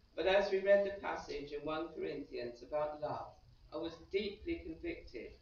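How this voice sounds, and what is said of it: English accent. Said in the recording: “my nice English accent”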